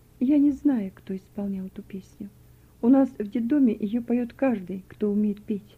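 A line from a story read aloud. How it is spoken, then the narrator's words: Quiet answer. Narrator (Russian): Вера тихо ответила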